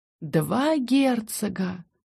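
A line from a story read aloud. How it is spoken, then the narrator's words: Dreamy drawl. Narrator (Russian): мечтательно протянула Бри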